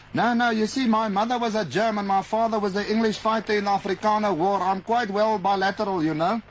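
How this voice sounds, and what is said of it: Pronounced Afrikaans-sounding accent. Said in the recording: “I think that you would be better off in Afrikaans. ... you have a fairly pronounced accent.”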